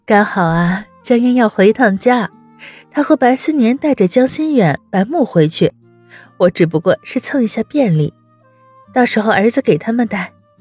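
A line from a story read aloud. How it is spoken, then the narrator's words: Smiling explanation. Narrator (Chinese): 温之夏笑解释道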